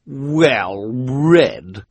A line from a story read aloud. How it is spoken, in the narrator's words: she repeated, in a particularly nasty tone of voice